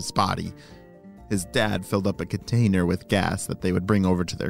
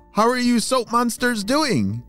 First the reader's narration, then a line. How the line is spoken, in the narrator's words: She shouted